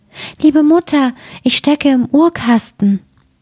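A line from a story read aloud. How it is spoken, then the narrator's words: Thin delicate voice. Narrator (German): rief eine feine Stimme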